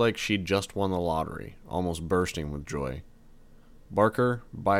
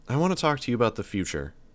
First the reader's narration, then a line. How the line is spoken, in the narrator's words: said